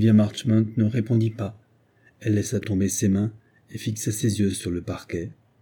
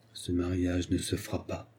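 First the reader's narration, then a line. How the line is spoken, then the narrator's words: Murmur with mad laughter. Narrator (French): murmura-t-elle avec un éclat de rire insensé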